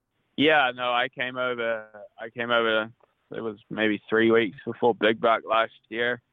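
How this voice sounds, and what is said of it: New Zealand accent. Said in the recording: “you're from New Zealand, if anyone didn't pick up on the accent.”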